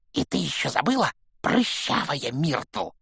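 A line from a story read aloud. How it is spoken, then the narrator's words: Hiss in the ear. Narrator (Russian): прошипел ей в ухо Пивз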